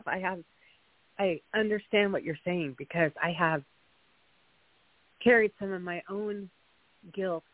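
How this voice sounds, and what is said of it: Emotional, slightly choked-up voice. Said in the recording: “I'm a little choked up.”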